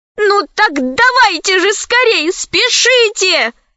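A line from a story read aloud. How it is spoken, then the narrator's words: Exclaiming. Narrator (Russian): воскликнула Лара Коралли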